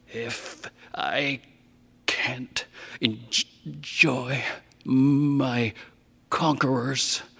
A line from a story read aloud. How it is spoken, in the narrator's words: he rasped over Issa's collected verse